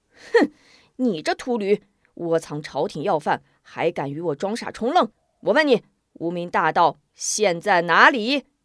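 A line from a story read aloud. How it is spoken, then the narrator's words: Angry. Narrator (Chinese): 边豪怒道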